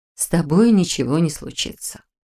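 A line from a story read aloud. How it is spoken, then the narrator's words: Soft reassurance. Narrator (Russian): мягко заверила она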